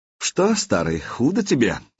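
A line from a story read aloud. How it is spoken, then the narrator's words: Deceptively soft voice. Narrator (Russian): обманчиво мягким голосом проговорил Владимир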